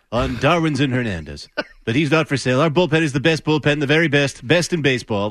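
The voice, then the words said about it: Bad Trump-style impression. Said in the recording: “it's Trump-esque is what that is. I know it's a bad impersonation.”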